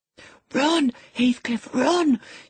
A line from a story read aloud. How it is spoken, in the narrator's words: she whispered